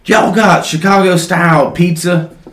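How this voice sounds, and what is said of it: Heavy Southern US accent. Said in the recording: “The guy's got a very heavy southern accent.”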